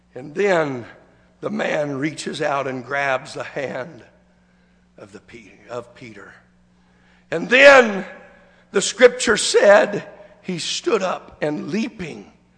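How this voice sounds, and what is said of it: Voice in poor, strained condition. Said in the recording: “I do apologize for my voice. I know it's miserable trying to listen at me this morning, but ... I'm doing the best that I can.”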